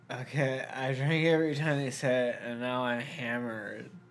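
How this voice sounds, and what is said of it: Imitates a drunk, slurred voice. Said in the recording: “my really good drunk impression.”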